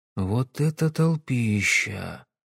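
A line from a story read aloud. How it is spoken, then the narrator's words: Quiet. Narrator (Russian): тихо проговорил Сэм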